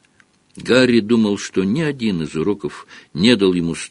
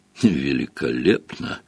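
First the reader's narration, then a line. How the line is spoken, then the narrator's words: Gloomy remark. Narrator (Russian): мрачно заметил Гарри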